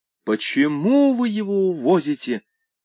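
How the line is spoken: Mother shrieking. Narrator (Russian): взвизгнула мать

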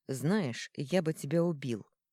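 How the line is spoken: Plain. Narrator (Russian): сказал тогда Корвиус

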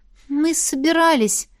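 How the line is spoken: Sighing. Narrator (Russian): вздохнула я

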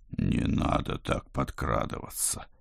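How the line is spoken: Moaning. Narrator (Russian): простонал я

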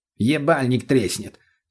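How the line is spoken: Snapped back immediately. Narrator (Russian): тут же огрызнулся мутный

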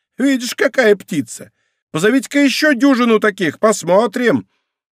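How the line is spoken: Piercing, very loud shout. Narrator (Russian): пронзительным голосом, который можно было слышать с паперти Нотр-Дам, начала кричать

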